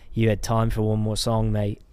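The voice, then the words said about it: Poorly imitated English accent. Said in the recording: “English ... I'm sorry if I butchered his accent”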